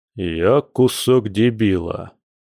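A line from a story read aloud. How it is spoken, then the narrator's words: Gloomy reply. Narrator (Russian): мрачно ответил мужчина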